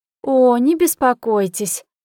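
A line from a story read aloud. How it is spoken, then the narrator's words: Ringing laugh. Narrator (Russian): звонко рассмеялась Жанна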